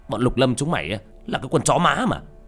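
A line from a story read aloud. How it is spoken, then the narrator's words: Furious shouting. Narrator (Vietnamese): Tên to con nhất nổi máu điên, hắn hét lên trong cơn thịnh nộ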